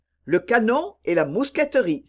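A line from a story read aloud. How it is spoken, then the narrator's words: Exclaiming. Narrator (French): s'écria l'évêque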